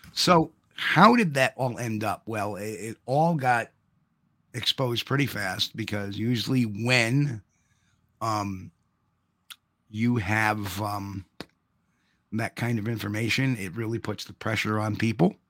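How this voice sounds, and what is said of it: Slightly hoarse voice. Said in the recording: “I am a little hoarse from the concert a bit and from the lecture. Just my voice”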